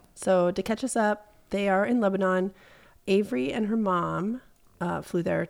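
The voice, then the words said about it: Gravelly voice from a cold. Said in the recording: “I have a cold, so I sound a little grizzly”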